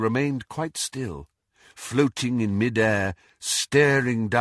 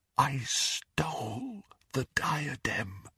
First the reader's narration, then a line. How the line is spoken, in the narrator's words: repeated Helena Ravenclaw in a whisper